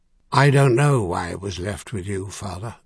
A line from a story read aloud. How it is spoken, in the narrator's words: Merlin said gently